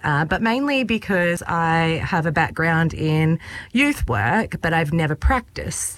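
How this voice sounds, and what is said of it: Slight Maori accent. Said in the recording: “I detect an accent. ... Maybe a Maori accent? ... A little bit.”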